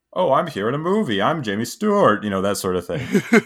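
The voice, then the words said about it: Old-timey movie star impression. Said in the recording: “old timey movie accent ... my Jimmy Stewart impression”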